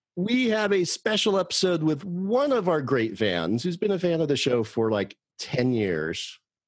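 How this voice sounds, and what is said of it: Announcer-style radio voice. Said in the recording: “as I use my radio voice, I don't know why that kicked in”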